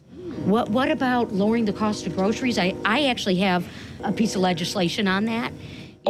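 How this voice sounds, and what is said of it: Michigan accent. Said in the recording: “Her Michigander accent.”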